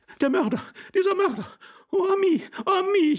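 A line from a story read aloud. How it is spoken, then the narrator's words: Lady wailing. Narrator (German): jammerte die Dame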